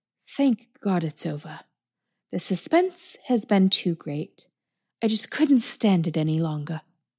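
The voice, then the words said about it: Put-on British accent. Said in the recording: “That's me impersonating H.H. Crippen, impersonating a British person.”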